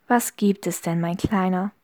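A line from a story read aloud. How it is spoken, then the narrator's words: Sweet smiling coo. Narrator (German): säuselte mit einem Lächeln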